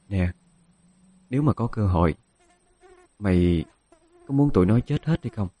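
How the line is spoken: Quiet voice. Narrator (Vietnamese): Dung nói nhỏ

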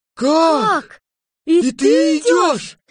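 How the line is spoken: Astonished crowd shouting. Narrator (Russian): закричали все в изумлении

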